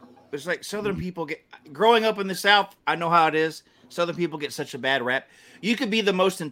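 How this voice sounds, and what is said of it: Usual voice. Nothing is said of it.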